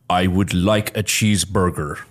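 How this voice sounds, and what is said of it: Forced deep American accent. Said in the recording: “his very forced American accent was he talked very high, like he was a very like high vocal range individual, but he would just go really deep”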